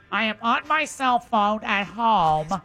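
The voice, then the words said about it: Imitates another person's voice. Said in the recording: “That's a fair depiction of me ... I tried. It's awful ... it's not too far from her impression of me ... You might want to get your adenoids checked”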